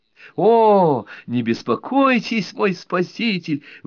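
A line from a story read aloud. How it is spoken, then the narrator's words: Woman exclaiming. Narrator (Russian): воскликнула женщина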